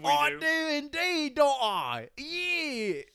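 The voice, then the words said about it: Put-on British accent. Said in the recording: “with a British accent ... I can't do a good Cockney. Maybe I can. Did you think that was good?”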